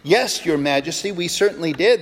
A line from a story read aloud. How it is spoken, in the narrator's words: they replied